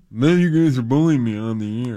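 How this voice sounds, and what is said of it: Imitation of a coworker's voice. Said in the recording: “That's your impression of Abbott. Do it again. ... It's almost there. A little higher. ... It's not even close.”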